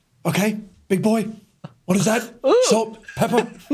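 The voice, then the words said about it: Imitates another person's voice. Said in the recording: “That's a good Gordon Ramsay impression.”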